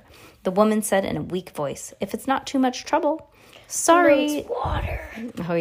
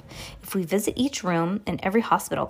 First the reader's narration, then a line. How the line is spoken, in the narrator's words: Klaus whispered